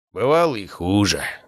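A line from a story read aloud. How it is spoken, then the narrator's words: Sigh. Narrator (Russian): вздохнул он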